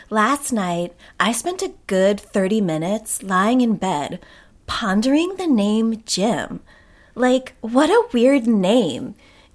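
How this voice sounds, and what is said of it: Put-on different reading voice. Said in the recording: “I don't really know how she talks, but I'm going to do a different voice, just so everybody's not confused that these are not my thoughts. These are January Jones's thoughts.”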